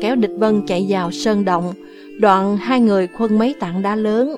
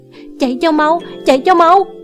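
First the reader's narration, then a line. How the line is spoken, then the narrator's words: Shout. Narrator (Vietnamese): Thủy Sanh la lên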